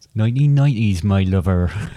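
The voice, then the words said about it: Put-on West Country accent. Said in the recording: “it just sounded a little bit like you tailed off into West Country”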